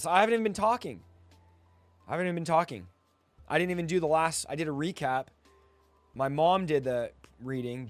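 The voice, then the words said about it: Hoarse, fading voice. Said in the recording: “something from my throat... my voice is just going out”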